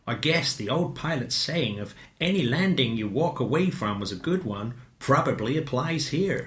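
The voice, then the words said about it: Imitates another person's voice. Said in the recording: “Sorry about that, Peggy. That accent is not endorsed by me.”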